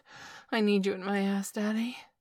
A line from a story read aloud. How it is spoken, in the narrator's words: said with a gasp